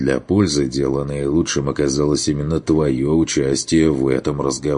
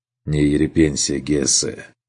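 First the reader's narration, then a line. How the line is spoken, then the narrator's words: Serious sigh. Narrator (Russian): уже серьезно вздохнул Керн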